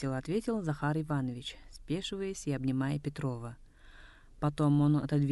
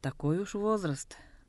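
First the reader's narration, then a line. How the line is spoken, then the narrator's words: Mock-sad, then laughing. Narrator (Russian): нарочито грустно сказал Петров и тут же не выдержал и рассмеялся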